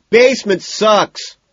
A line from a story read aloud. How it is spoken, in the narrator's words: McDermott shouts